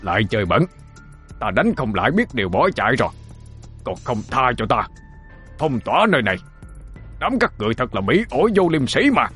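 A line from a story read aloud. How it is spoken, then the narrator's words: Old man howling. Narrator (Vietnamese): Lão gào lên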